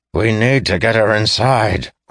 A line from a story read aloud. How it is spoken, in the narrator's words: growled Tayrus